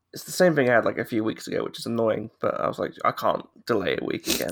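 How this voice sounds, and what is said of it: Ill, rough-sounding voice. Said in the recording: “I don't feel great. You can probably tell it in my voice... are you ill... my horrible voice”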